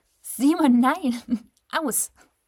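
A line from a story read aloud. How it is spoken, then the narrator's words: Laughing. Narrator (German): lachte Robin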